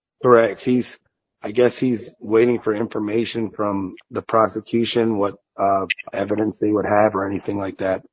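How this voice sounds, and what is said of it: Very hoarse voice. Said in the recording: “my voice is very hoarse”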